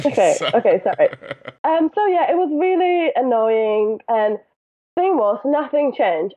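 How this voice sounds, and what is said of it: Speaks with a noticeable accent. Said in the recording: “With your accent, nobody will hear it ... once in a while, you sound like Adele to me ... there's a couple of words where it sounds like that to me”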